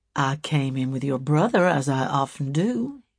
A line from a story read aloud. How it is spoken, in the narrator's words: he answered coldly, in self-justification